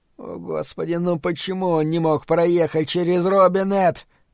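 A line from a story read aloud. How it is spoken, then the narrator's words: Moaned. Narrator (Russian): простонал Бобби Терри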